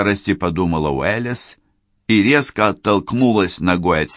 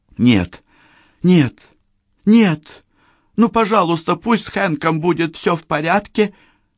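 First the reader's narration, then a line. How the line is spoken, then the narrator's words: Silent plea. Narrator (Russian): Молча взмолилась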